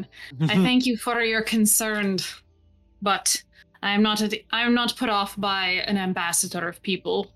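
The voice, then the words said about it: Put-on Scottish accent. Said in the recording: “I keep forgetting to do his Scottish accent.”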